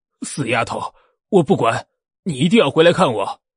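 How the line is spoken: Old man yelling, over phone. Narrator (Chinese): 手机那头传来老头大吼大叫的声音

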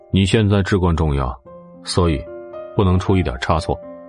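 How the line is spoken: Calm, flat. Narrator (Chinese): 冷风淡淡的说道，又补充了一句

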